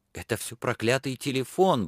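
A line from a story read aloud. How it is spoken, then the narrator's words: Muttering. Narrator (Russian): бормотал Аким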